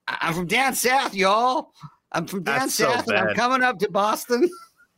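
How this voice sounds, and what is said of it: Put-on Southern American accent. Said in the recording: “do the whole show in my American accent”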